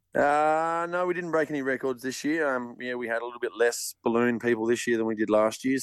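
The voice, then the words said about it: Croaky, worn-out voice. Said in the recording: “my voice is still a bit croaky from too much yahooing”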